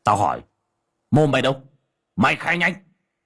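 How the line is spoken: Barking. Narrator (Vietnamese): Cậu quát

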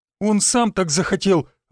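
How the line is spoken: Breathed out. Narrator (Russian): выдохнула она

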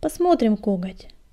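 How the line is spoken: Calm reply. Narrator (Russian): спокойно ответила предводительница

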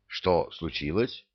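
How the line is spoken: Plain. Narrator (Russian): спросил его Кевин

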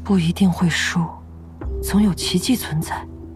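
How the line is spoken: Soft comforting. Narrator (Chinese): 昭元 轻声安慰乐月

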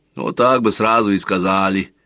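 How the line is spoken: Grumbling. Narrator (Russian): проворчал детинушка

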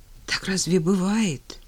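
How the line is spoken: Frightened question to himself. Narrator (Russian): испуганно спросил себя Женя

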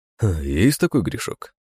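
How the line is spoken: Pleased snort. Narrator (Russian): хмыкнул довольный мироходец

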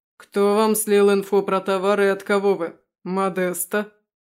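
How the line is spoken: Mocking leader. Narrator (Russian): Насмешливо произносит главный

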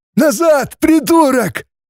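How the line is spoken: Yelling. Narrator (Russian): заорал некто в черном одеянии

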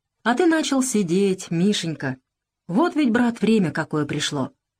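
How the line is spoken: Tender. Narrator (Russian): Александр Сергеевич ласково промолвил

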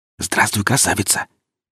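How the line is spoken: Gentle close whisper. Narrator (Russian): прошептал я практически в ухо служанке, стараясь не довести до обморока и так перепуганную девушку

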